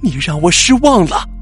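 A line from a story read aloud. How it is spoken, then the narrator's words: Frantic shouting. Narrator (Chinese): 小红发疯似的 大叫着说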